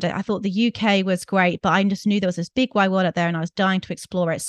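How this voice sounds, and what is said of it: British accent. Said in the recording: “I'm from the UK. I'm sure your listeners have picked up my accent.”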